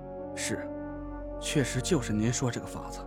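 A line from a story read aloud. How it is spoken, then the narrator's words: Sighing. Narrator (Chinese): 我叹了口气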